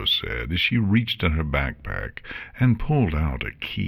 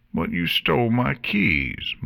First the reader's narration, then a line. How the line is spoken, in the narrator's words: Morta whined